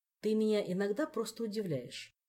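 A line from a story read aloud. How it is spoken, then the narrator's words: Plain. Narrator (Russian): сказал он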